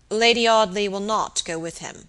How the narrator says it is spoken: said Robert gravely

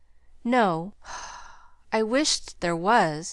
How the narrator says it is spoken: he sighed wistfully

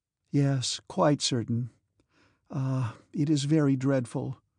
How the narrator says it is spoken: She sighed and said

